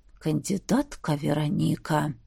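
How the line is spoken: Menacing hiss. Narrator (Russian): грозно прошипел Грегори

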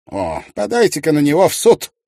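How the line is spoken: Angry advice. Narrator (Russian): зло посоветовал

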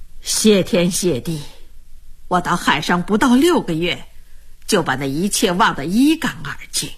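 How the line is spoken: Laughing. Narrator (Chinese): 安珠……笑着说

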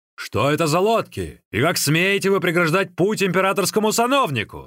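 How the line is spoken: Group shouting. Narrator (Russian): закричали они

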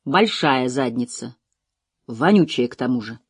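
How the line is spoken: Gloomy. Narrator (Russian): мрачно уточнил Лоусон

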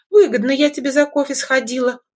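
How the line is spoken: Laughing female friend. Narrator (Russian): хохотнула подруга

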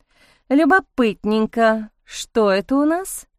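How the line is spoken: Drawling, curious. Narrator (Russian): протянула Марта

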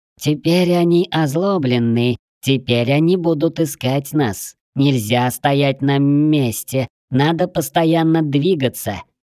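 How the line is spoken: Singsong. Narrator (Russian): нараспев произнесла Кора

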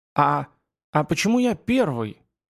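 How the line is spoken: Trembling voice question. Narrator (Russian): дрожащим голосом осведомился Юнга

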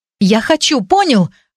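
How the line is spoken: Shouted out. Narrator (Russian): выкрикнула я

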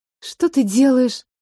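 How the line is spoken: Breathed out. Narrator (Russian): выдохнула Лида

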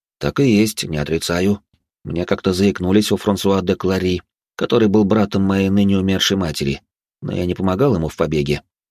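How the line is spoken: Calm. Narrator (Russian): спокойно произнес я

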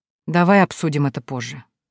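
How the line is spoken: Tired sigh. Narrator (Russian): устало вздыхает Сава

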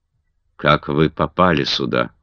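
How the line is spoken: Cold question. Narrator (Russian): холодно спросила Маргарет

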